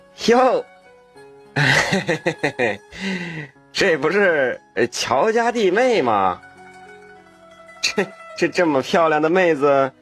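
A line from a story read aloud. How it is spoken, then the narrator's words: Grinning, leering. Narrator (Chinese): 他……笑嘻嘻的说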